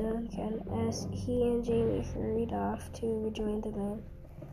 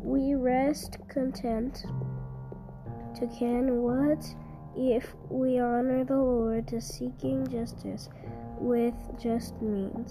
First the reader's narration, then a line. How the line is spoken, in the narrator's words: he said soothingly